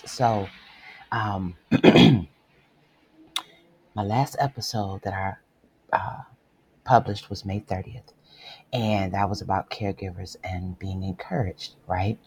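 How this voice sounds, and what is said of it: Rough, strained voice. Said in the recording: “my voice sounds a little rough”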